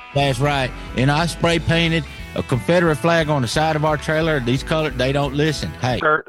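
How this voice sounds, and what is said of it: Put-on Southern redneck accent. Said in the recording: “We ain't never gonna lose his accent. Ain't never gonna.”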